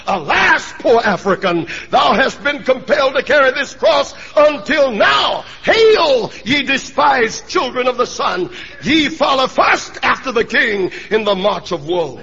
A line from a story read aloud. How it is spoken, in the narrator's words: Charles Spurgeon cried out